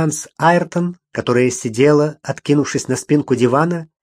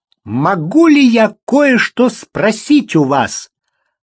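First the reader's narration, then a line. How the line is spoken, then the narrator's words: Loud and sudden. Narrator (Russian): Она произнесла эти слова так громко и так неожиданно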